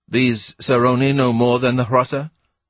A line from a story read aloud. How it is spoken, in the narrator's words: asked Ransom